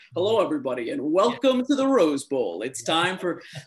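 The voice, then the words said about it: Exaggerated old-style broadcaster announcer voice. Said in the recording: “stop it with a broadcastery voice ... broadcasters sounded different, right? There was kind of a broadcastery tone ... get out of radio voice”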